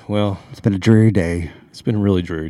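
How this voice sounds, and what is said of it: Flat, low-energy college DJ voice. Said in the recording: “talking like a college ... DJ. no energy.”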